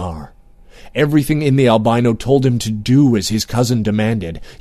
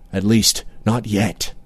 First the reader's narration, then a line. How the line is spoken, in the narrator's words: he murmured